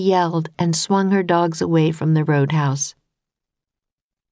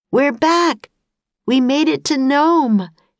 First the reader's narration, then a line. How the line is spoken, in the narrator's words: he cried